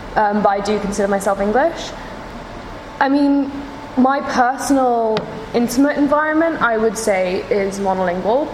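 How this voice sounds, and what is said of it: English speaker, slight American accent. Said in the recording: “I do have a slight kind of American accent”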